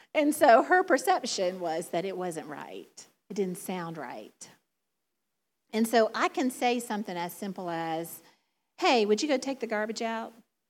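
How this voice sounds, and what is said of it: Southern drawl. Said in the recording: “my southern drawl, my southern accent”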